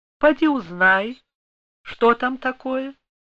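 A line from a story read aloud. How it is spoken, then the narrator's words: Outwardly calm, suppressed agitation. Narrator (Russian): С трудом сдерживая волнение, Екатерина Алексеевна сказала наружно спокойным голосом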